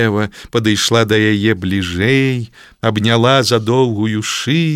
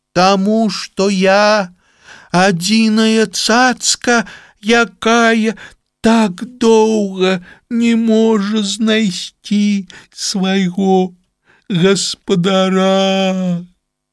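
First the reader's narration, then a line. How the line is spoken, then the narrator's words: Mournful voice. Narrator (Belarusian): журботным голасам адказала жырафка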